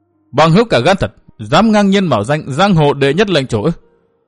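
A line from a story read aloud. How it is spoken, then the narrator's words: Cold, loud shout. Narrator (Vietnamese): Thiên Hương Phi Tử lạnh lùng thét lớn nói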